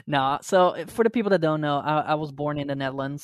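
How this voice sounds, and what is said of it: Dutch speaker with fake American accent. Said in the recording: “So my accent is fake American.”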